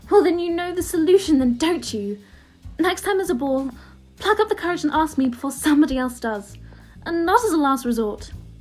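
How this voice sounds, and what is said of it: Hermione voice, like Emma Watson. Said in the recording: “amazing accent switch there ... Bloody hell, that was like Emma was in the room.”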